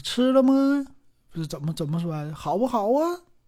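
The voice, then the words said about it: Jinzhou accent, rising intonation. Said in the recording (Chinese): “锦州啊，葫芦岛啊 ... 就这这样的感觉，就往上挑”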